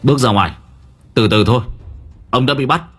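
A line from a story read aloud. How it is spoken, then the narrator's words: Almost shouting. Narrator (Vietnamese): Nam nói như quát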